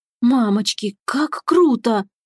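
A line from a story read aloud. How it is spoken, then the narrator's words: Breathless exclamation. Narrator (Russian): выдохнула Татьяна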